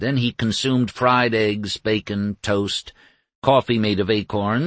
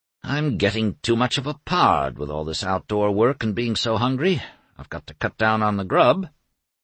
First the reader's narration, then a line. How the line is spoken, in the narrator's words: He sighed